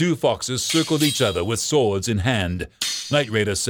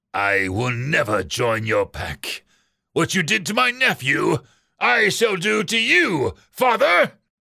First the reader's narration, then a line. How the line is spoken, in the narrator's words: Raider snarled